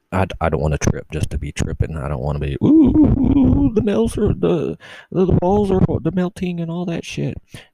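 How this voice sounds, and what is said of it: Speaking in a low, quiet voice. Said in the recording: “why am I talking so low?”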